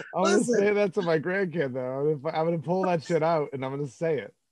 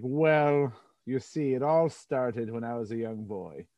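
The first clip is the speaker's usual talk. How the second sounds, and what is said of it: Put-on English accent. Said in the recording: “With the English accent too.”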